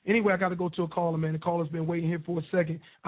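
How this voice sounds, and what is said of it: Hoarse, nearly lost voice. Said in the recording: “my voice is gone”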